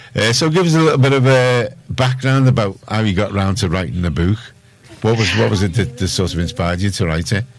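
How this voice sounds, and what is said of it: Scouse accent. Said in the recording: “Scouse accent.”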